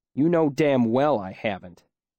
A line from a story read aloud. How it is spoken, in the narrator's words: he said crossly